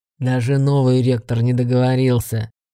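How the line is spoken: Booming orc voice. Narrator (Russian): прогудел орк

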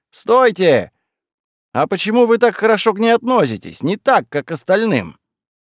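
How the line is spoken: Shouted after them. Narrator (Russian): закричал им вслед

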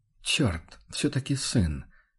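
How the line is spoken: Barely audible mutter. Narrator (Russian): чуть слышно пробормотал охотник

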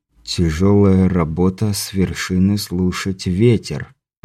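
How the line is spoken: Muttered under breath. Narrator (Russian): пробормотал Андрей себе под нос

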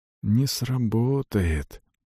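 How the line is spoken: Whisper. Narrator (Russian): прошептал

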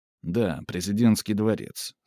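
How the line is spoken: Calm. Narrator (Russian): спокойно сказал Мавр

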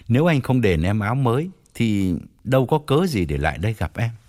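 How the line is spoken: Smiling, blunt. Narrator (Vietnamese): Toàn mỉm cười nói thẳng

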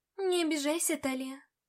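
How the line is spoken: Soft. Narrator (Russian): мягко сказала

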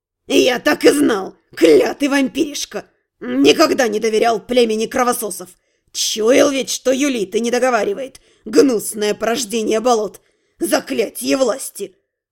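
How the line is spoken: Growl. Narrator (Russian): рыкнул воин-шаман

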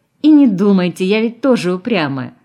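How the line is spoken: Laughing. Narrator (Russian): засмеялась она

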